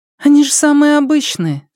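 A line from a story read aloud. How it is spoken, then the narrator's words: Giggling. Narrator (Russian): сказала Ляо Яфан, хихикнув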